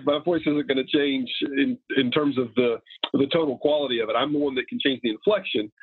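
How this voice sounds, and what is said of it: Nasal Southern drawl. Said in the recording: “this nasally southern drawl that I've got is not going anywhere ... the grating voice”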